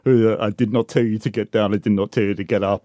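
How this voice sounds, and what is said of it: Imitated Russian accent, jailer character. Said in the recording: “his very, very, very interesting Russian accent. I think it's probably from Lake Baikal. I think it's Eastern Siberian.”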